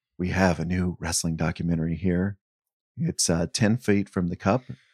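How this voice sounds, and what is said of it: Hushed golf commentator voice. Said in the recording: “golf voice ... I am being very unnaturally quiet”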